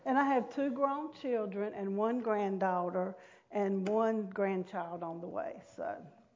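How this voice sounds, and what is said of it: North Carolina Southern US accent. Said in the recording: “in case you can't tell by my accent, but I was born and raised in North Carolina”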